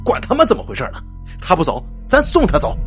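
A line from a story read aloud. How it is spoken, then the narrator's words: Loud voice. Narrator (Chinese): 猴子 大声的说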